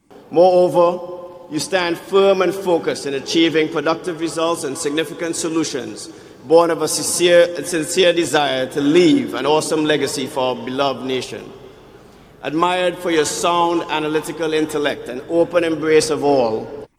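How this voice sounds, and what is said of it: Jamaican accent. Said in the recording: “the guy with the Jamaican accent”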